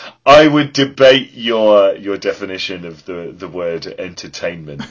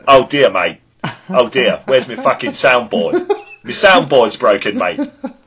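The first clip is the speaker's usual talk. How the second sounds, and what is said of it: Bad put-on Australian accent. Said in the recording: “putting on a shit Australian accent”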